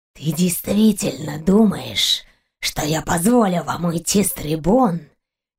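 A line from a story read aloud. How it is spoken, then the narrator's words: Furious hoarse rasp. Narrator (Russian): Яростно прохрипел Калвак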